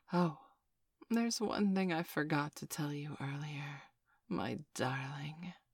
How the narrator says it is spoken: she said quietly into my ear

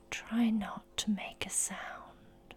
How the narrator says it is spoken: whisper

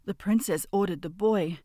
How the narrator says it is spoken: called out

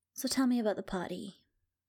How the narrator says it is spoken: I asked

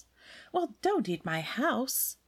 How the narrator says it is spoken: the baker woman laughed

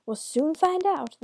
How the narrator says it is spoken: the devil cried

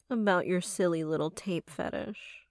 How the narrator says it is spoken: she said, her voice now taking on a mocking tone

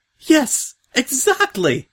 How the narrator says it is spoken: she said happily

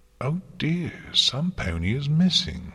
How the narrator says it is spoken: Luna said brightly

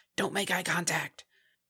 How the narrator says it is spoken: the dark pool nearby hissed

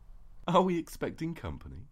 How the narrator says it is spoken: You giggled

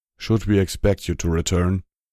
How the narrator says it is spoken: he asked in a low voice

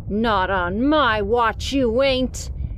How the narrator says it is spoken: he growled

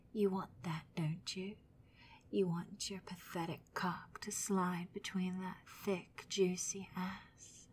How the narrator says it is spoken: The woman whispers

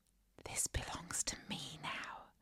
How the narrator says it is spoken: whispered in his ear

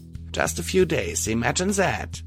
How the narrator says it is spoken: she said dryly

